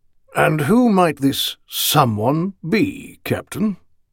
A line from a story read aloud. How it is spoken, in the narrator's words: he inquired coolly